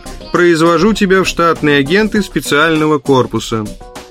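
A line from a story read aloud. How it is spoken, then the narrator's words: Nasal drone. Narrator (Russian): загнусавил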